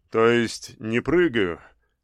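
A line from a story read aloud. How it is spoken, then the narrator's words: Laughing. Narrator (Russian): рассмеялся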